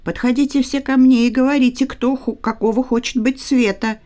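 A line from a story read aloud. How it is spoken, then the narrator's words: Shouting. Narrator (Russian): крикнул он цветам и кустам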